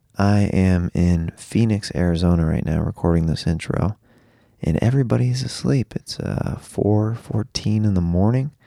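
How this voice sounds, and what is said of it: Soft whispered speech. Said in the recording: “You're probably wondering why it sounds like I might be whispering a little bit. It's because I am, just a little bit.”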